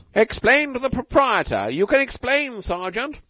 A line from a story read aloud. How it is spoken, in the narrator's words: shouted King